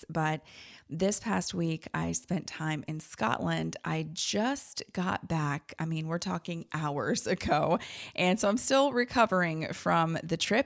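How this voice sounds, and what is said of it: Tired-sounding voice. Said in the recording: “Kind of tired. Don't know if you can hear it in my voice”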